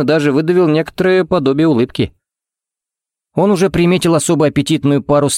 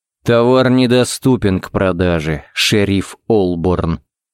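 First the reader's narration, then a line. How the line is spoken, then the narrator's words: Said through gritted teeth. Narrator (Russian): процедил он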